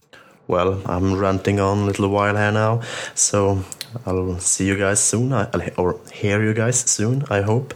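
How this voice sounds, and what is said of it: Strong accent. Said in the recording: “what an amazing accent”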